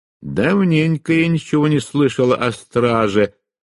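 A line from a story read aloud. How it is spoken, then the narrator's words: Grumbled. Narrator (Russian): проворчала Фиона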